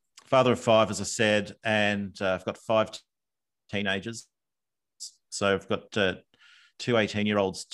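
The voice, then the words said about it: Australian accent. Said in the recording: “you can tell from the accent, I live in Australia”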